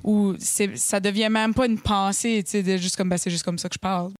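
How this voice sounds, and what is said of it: Acadian French accent. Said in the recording (French): “En plus d'être acadienne, puis d'avoir l'accent que j'ai”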